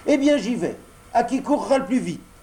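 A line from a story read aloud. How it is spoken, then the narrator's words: Shouting. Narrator (French): cria Pinocchio en s'élançant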